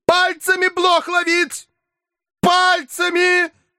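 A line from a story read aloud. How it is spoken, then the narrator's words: Furious shout. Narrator (Russian): яростно крикнул Филипп Филиппович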